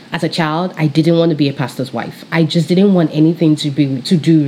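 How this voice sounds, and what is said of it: British accent. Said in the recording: “my British accent.”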